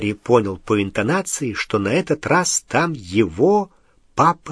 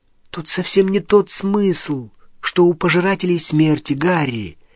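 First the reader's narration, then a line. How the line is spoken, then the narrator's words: Soft, gentle. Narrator (Russian): мягко сказала Гермиона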